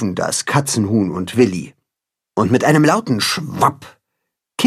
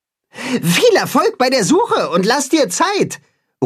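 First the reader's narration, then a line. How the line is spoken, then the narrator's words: Calling after. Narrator (German): ruft Timme ihm nach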